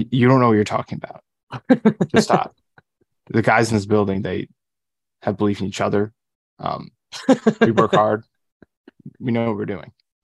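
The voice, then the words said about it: Imitates another person's cadence. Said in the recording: “pretty good Gase impression ... I was more focusing on the cadence than the voice”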